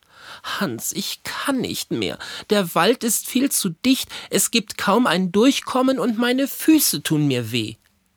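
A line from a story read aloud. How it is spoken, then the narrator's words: Weary groan. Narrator (German): stöhnte Mutter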